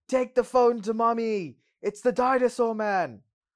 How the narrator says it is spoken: It's a little loud, so Alan screams

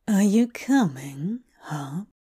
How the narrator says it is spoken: He asks, his voice even more alluring to Hob than it has ever been before

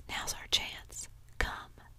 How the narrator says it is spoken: Tom whispered

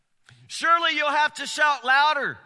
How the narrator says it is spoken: he scoffed

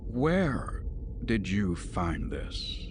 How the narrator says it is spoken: he asked softly, though there was a dangerous undercurrent in his voice

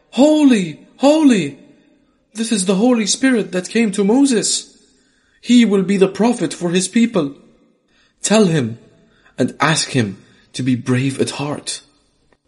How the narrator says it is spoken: he cried out

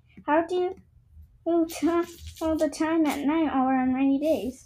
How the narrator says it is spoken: Danielle giggled

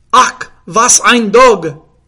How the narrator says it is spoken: cried the Spanish

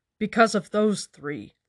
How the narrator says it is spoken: Lon said angrily

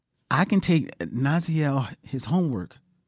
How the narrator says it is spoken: said timidly

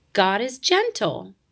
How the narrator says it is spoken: chirped the robin

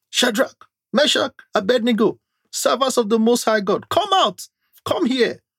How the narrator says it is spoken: shouted

